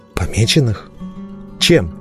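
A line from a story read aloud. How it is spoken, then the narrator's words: Hoarse question. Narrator (Russian): хрипло поинтересовался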